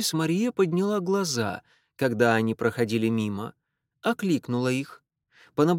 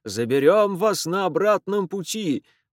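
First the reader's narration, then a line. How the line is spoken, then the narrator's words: Shouting through cupped hands. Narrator (Russian): прокричал он, сложив ладони рупором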